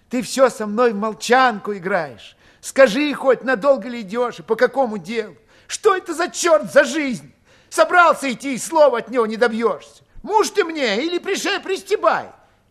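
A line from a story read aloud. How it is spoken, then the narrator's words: Vexed, bitter exclamation. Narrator (Russian): Дуняшка с досадой и горечью воскликнула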